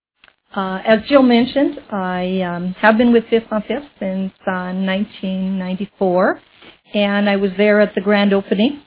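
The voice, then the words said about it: Strained, recovering voice. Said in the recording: “I just apologize for my voice. I was without a voice 2 days ago”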